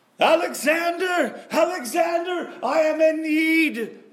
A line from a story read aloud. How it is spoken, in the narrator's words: yelled Menachem